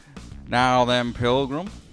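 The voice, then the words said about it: British-sounding John Wayne impression. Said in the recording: “It's like everyone's just trying to do John Wayne ... That was still British John Wayne.”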